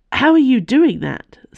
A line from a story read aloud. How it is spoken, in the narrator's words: sputtered